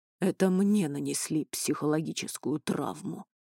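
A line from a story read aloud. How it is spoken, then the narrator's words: Sighing. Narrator (Russian): вздохнул Туч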